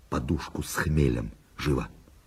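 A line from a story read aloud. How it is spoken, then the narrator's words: Whispered order. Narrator (Russian): Барон шепотом приказал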